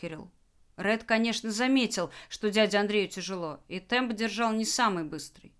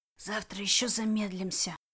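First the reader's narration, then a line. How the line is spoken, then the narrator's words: Whisper. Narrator (Russian): шепотом поделился с Кириллом Ред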